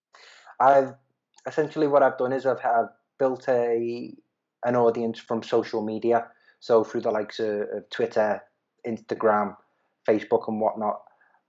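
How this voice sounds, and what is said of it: Noticeable regional accent. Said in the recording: “walking around with this accent.”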